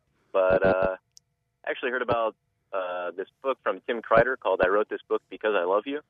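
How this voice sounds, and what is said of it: Sick-sounding, rough voice. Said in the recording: “Apologize for my voice. I'm getting over a bit of a flu here.”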